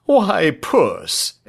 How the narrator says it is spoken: exclaimed her father

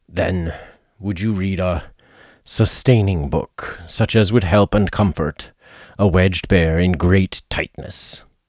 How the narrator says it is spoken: Bear began to sigh, and then found he couldn't because he was so tightly stuck, and a tear rolled down his eye as he said

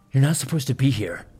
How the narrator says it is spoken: growled through clenched teeth

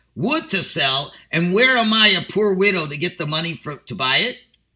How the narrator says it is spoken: a sick Jewish woman huddled up in rags who bitterly says

